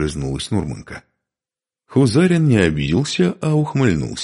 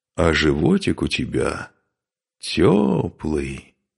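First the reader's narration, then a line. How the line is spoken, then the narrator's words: Drawled. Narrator (Russian): протянул он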